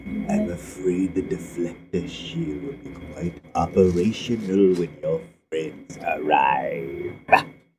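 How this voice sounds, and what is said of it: Deep villain voice impression. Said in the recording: “my voice sounds crazy because I'm sick right now, I think. And right now I can do really cool things like, ... Lord Vader.”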